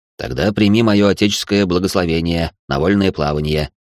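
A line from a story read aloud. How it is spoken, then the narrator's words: Wry snort. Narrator (Russian): хмыкнул отец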